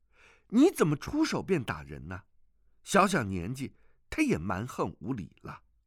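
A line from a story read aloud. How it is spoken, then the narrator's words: Angry. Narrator (Chinese): 虚竹怒道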